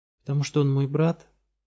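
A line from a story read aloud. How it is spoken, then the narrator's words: Uncertain guess. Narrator (Russian): неуверенно предположила Габу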